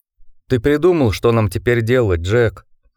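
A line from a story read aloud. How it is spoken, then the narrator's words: Timid question. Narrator (Russian): робко спросил волк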